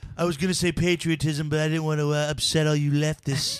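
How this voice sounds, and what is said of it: Imitates another person's voice. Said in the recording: “He has the best Trump impression. ... Yeah, he does have a good one.”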